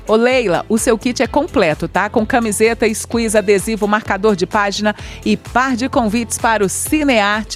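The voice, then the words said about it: Compromised, impaired voice. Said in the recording (Portuguese): “hoje minha voz tá bem assim, comprometida”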